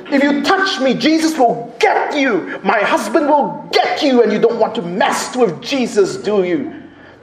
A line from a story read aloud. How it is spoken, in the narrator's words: she was just crying and shouting out as loud she was